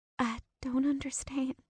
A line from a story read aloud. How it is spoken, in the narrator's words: Paisley said softly